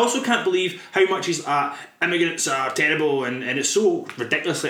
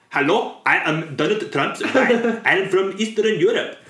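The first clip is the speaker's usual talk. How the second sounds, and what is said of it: Put-on Eastern European accent. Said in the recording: “My accent is terrible because I don't know what part of Europe I'm from.”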